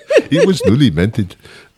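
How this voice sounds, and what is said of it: Put-on Indian accent. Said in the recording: “with the Indian accent.”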